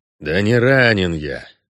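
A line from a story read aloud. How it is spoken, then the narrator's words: Pained grumble with hissing. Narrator (Russian): пробурчал Геральт, морщась и шипя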